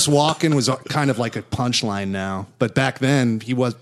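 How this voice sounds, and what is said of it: Usual voice. Nothing is said of it.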